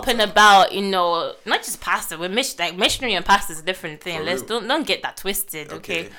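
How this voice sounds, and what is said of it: Nigerian accent. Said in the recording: “people say I have an accent ... No, you got an accent ... you sound like a bit of a fob ... No offense to anybody from Nigeria, but this girl over here sounds like a freshie”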